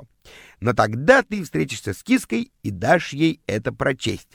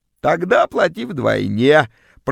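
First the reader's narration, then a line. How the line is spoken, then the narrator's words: Creaky voice. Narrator (Russian): проскрипела вымогательница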